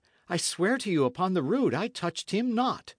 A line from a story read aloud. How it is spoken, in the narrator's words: Dick cried